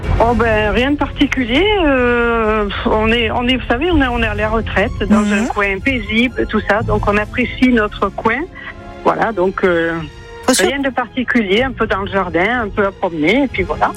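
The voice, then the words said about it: Southern French regional accent. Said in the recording (French): “Votre accent, il vient d'où ... Il vient de la Drôme. ... un accent drômois qui ressemble à celui du Sud-Ouest. ... ça sonne un petit peu comme mes bords de Garonne. Votre bout d'accent, ... c'est mignon.”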